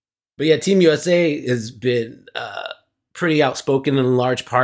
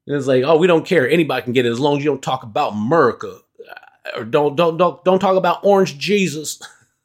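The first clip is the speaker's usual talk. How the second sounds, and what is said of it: Put-on Southern accent. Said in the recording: “doing the Southern accent”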